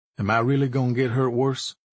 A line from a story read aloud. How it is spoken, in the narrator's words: he said